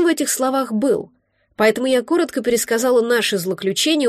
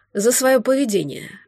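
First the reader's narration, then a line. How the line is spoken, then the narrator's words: Sighed. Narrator (Russian): вздохнул Ставр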